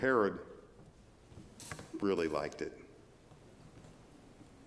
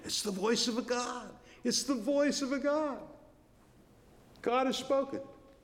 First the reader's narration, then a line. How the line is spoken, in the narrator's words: the delegations from Tyre and Sidon are shouting